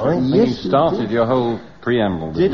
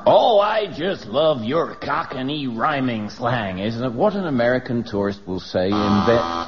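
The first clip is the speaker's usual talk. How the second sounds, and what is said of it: Poor put-on American accent. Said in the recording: “Why is he speaking in a Welsh accent? ... I don't think it was a very good American accent, but it was certainly it was closer to American than Welsh.”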